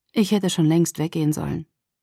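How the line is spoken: Sigh. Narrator (German): er seufzte

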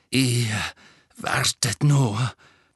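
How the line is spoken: Panting. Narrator (German): keuchte er

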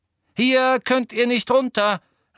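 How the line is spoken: Called to crowd. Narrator (German): rief Ginny der Menge zu

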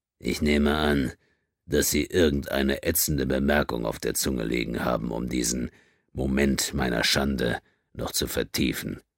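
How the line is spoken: Exhausted voice. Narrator (German): Mit erschöpfter Stimme sagte er zu Race

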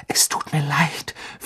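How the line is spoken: Whispered. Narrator (German): flüsterte er

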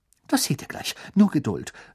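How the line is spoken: Excited. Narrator (German): sagte Hermine aufgeregt

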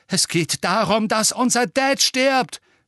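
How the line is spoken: Shouting. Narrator (German): schrie

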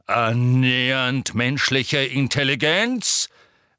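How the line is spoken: Repeating. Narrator (German): wiederholte Magorian

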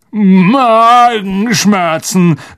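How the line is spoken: Grunted. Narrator (German): grunzte Ron

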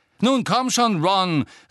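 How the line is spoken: Harsh shout after someone. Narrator (German): rief ihm Angelina in barschem Ton hinterher

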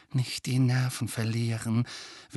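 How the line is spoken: Urgent whisper. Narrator (German): wisperte Hermine eindringlich

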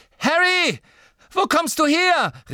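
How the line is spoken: Called out. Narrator (German): rief Ginny

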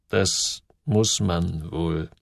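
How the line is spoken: Slow. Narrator (German): sagte Simon langsam

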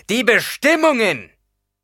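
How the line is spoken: Bellowed. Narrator (German): brüllte Paul

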